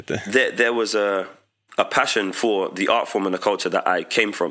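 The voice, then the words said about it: Congested voice with sniffing. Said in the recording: “I'm on the tail end of a cold, so you'll probably hear a lot of sniffing”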